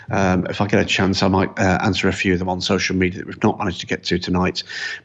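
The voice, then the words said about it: Tired, worn-out voice. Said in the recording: “As you can probably hear in my voice, it's been a long, long day. 21 hours up now and time for me to hit the hay.”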